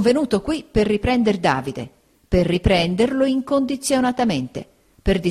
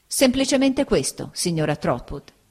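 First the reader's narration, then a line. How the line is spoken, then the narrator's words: Plain. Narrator (Italian): egli rispose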